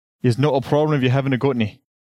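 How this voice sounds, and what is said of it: Bad put-on Scottish accent. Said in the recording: “this bad accent ... that's Scottish”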